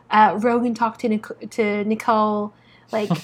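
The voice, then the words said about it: Imitates another person's accent. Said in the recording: “I love that accent.”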